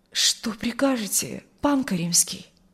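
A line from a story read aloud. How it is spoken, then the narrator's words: Trembling voice. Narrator (Russian): произнес дрожащим голосом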